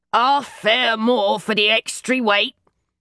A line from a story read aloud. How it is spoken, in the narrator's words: said in the deepest, gruffest Cockney voice in my repertoire